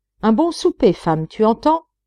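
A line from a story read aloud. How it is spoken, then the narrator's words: Exclaiming. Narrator (French): s'écria Simon Ford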